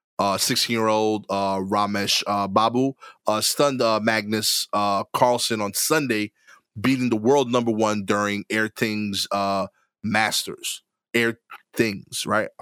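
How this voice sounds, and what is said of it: Slight Trinidadian accent. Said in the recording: “I felt like I said that with a little bit of a Trini accent or something.”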